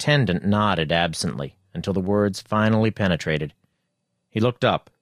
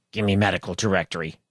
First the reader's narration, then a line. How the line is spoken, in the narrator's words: he muttered